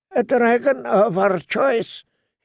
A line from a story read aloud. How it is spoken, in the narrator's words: he said in a thin, hard voice